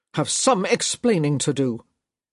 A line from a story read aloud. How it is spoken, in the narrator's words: he growled